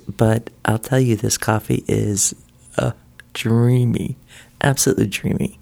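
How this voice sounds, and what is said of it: Quiet, not fully awake morning voice. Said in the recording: “thus my quiet voice ... My voice isn't quite yet in its full-on day voice”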